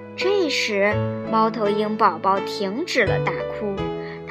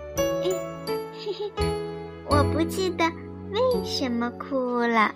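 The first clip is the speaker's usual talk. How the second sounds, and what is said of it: Quiet, murmuring voice. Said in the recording (Chinese): “小声地哼哼道”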